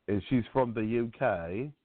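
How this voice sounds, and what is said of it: Put-on British accent. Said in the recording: “my British accent. You got a problem with my British accent”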